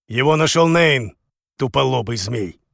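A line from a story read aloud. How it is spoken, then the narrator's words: Barked. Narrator (Russian): рявкнул У Вэйшэнь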